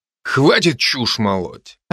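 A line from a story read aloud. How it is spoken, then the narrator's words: Growling brother. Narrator (Russian): рыкнул братец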